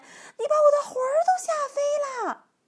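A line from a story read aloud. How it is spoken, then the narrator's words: Old woman shouting. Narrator (Chinese): 那个瘦小的老妇人喊起来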